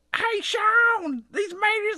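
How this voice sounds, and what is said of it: Exaggerated rural country accent. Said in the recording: “I know I don't sound like that... sound more country... That makes me sound like I'm missing my front teeth and I've got overalls on and a straw sticking out of my hair”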